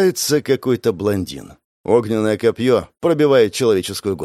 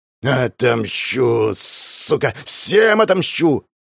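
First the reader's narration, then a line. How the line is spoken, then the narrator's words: Rabid growl. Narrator (Russian): Рычал, словно бешеный пес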